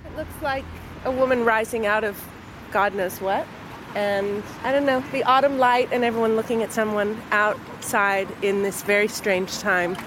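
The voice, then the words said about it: Non-local foreign accent. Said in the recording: “If you can tell from my accent, I don't come from here”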